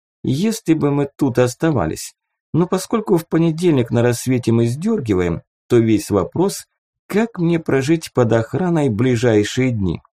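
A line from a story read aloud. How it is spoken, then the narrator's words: Thoughtful. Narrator (Russian): задумчиво произнесла Рина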